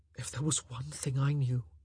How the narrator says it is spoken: he whispered, somehow finding the courage

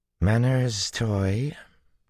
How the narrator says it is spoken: Tuon drawled, like honey sliding out of a dish

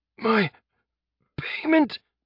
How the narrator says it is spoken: Jeb gasped

